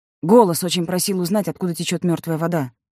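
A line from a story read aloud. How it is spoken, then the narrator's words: Plain. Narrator (Russian): сказал Сева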